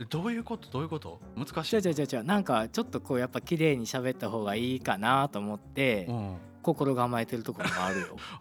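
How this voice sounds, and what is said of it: Kansai dialect Japanese. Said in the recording (Japanese): “関西弁で...関西弁やけど”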